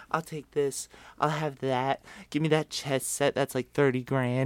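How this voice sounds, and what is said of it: Imitates another person's voice. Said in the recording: “That was a good impression. ... That is a good impression. Had a hee-hee”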